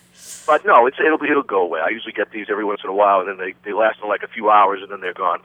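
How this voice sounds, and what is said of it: Slightly raspy, deeper than usual voice. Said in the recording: “A little raspy voice. I have a slight sore throat this morning ... I sound a little like a deeper voice than usual”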